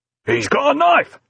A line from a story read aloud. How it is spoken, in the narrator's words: shouted the third and biggest finger man